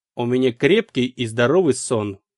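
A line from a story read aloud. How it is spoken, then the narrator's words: Snorting. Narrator (Russian): фыркнув, сообщила мне Дарианна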